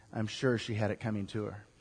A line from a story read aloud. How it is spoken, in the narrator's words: the diplomat responded softly